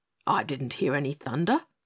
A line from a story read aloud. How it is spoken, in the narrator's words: snorted Highboy